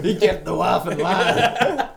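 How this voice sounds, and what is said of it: Put-on American accent. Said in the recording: “doing American accents”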